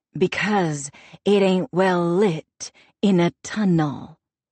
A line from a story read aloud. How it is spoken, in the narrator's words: Magpie says, enunciating each word slowly